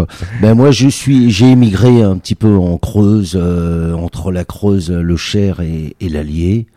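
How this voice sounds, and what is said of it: Slight Parisian French accent. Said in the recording (French): “je suis parisien, je suis né à Pigalle... c'est ça, cet accent... On sent un petit peu.”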